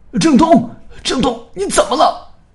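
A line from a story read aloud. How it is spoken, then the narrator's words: Shouting. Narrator (Chinese): 随着叫喊声，刘凡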